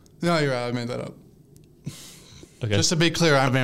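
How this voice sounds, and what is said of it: Usual voice. Nothing is said of it.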